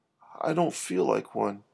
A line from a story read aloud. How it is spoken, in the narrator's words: said Herbie